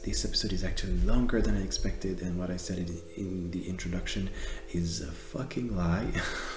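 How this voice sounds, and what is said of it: Non-native English accent. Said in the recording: “I really should improve my English accent”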